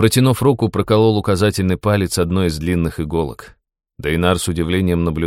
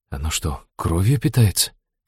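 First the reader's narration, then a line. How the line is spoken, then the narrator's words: Quiet question, young man. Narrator (Russian): тихо спросил юноша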